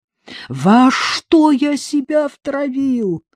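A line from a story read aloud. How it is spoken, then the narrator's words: Muffled whimpering like beaten dog. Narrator (Russian): заскулил, как побитая собака, прикрыв лицо руками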